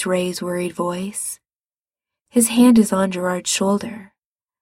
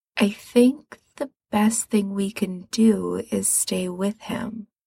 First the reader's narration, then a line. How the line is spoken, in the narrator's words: he says slowly